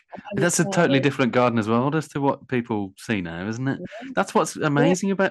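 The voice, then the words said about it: Birmingham accent. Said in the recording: “I'm in Birmingham, as you can tell from my accent”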